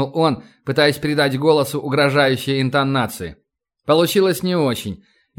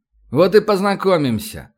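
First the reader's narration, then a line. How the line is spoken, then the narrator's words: Affectionate voice. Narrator (Russian): ласковым голосом ответил Старгородский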